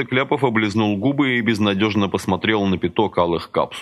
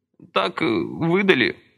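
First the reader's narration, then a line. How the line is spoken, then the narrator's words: Strained. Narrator (Russian): выдавил он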